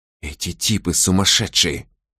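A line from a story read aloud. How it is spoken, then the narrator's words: Whispering. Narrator (Russian): прошептала она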